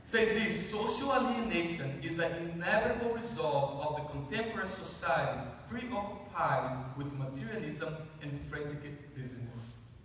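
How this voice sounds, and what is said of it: Accented speech. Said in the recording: “Maybe you didn't understand because of the accent.”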